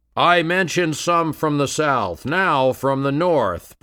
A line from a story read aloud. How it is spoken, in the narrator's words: Bryan thundered